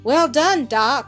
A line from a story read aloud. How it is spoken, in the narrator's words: cried the major, running up to them